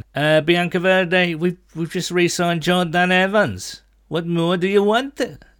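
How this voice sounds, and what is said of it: Terrible put-on Welsh accent. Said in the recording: “that's a terrible Welsh accent, wasn't it?”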